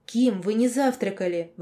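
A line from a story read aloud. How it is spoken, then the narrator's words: Exclaiming. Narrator (Russian): воскликнула Арида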